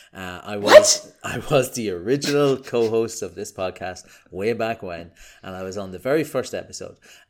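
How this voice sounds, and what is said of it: Irish accent. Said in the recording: “I'm Irish, as you can tell from my delightful accent.”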